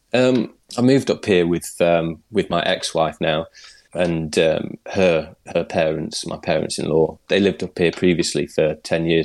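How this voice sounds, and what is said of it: English accent, not Scottish. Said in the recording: “I'm not Scottish or Orcadian, as you can probably tell by my voice ... I haven't got a thick Scottish accent”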